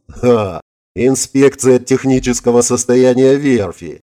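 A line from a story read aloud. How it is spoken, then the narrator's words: Forced laugh. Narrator (Russian): натянуто хохотнул Гельмут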